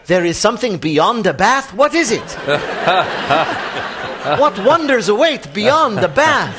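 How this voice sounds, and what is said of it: Put-on Cuban accent. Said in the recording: “That's your Cuban accent? ... So you won't sound so much like Chekhov.”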